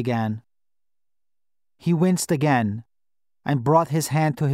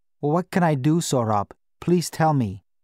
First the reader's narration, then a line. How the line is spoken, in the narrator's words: I said